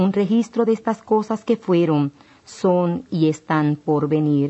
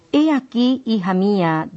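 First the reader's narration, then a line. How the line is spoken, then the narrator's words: Plain. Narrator (Spanish): dijo Jesús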